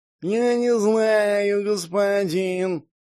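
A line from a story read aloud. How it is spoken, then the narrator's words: Nasal whine. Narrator (Russian): гнусаво заныла Баньши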